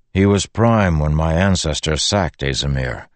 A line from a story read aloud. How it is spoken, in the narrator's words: Dalinar said with a sigh